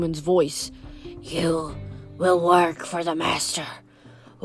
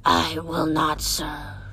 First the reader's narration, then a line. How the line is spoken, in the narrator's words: Tyson said in a deep, wounded voice